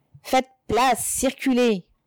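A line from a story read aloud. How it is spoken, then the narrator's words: Approaching gendarmes shouting. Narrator (French): criaient les gendarmes qui approchaient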